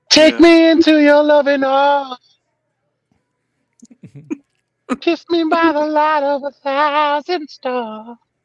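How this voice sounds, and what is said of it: Crooning lounge-singer voice. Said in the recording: “do you sound like a Vegas lounge singer?”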